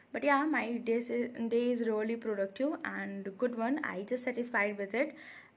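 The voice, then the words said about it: Tired, low-energy voice. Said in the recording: “I'm feeling so tired right now while recording this episode. That's why my voice is not that much energetic.”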